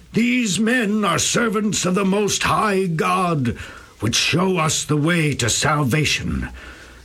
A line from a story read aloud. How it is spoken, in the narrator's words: that slave girl going about yelling